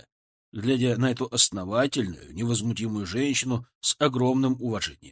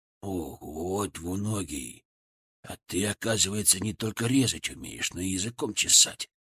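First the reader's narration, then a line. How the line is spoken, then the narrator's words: Admiring creak. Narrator (Russian): Восхищенно проскрипел в моей голове Фырк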